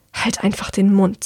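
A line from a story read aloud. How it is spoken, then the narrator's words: Hissed, girl. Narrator (German): zischt das Mädchen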